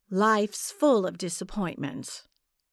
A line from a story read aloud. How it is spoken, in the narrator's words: I said